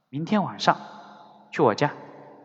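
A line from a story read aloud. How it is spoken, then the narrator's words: Soft inner thought. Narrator (Chinese): 他轻声想到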